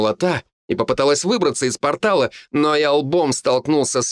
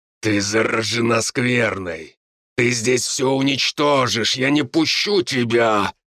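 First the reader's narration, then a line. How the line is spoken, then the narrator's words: Menacing. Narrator (Russian): грозно сказал я ей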